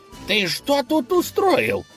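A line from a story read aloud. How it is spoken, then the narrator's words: Furious shouting. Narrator (Russian): вне себя от ярости закричал конь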